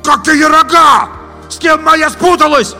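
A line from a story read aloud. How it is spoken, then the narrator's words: Shouting after them. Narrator (Russian): опомнившись, кричал им вслед Витя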